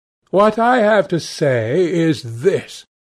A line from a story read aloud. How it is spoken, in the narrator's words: he cried